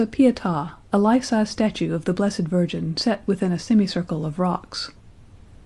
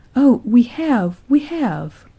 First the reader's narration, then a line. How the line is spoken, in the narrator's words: she cried